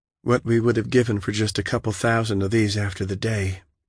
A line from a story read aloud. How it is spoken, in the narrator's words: Michaela said quietly